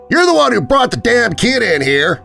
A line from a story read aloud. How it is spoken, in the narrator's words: smaller man yelled back